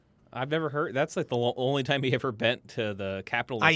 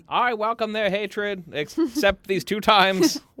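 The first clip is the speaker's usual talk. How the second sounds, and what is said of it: Generic 1940s man voice. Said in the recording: “you have an FDR impersonation ... generic 1940s man voice ... That was really good.”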